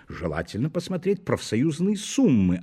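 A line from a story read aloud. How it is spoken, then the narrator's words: Answered with happy smile. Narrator (Russian): ответила комиссия, радостно улыбнувшись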